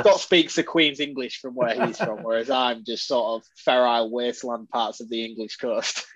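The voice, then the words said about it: Northern British accent, almost Scottish. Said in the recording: “your accent versus Scott's accent, I'm hearing a little more almost like a Scottish, like there's something different about it ... I'm more right? northern cave dweller than Scott”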